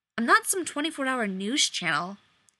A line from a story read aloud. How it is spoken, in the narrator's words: he snapped